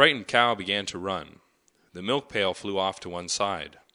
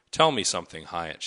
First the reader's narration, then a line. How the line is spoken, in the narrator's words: she said